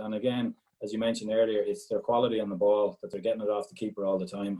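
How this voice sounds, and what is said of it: Irish Galway accent. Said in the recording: “Great to have a Galway accent”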